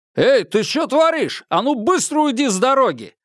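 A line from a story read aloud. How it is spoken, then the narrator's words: Loud shout. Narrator (Russian): Лэйжун громко крикнула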